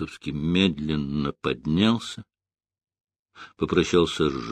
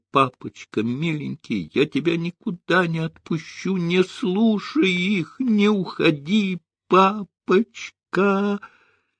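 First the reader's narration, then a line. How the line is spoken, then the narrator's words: Hysterical screaming. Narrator (Russian): Ада истеричным голосом закричала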